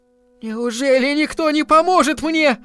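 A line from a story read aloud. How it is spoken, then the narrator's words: Screaming. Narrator (Russian): закричала она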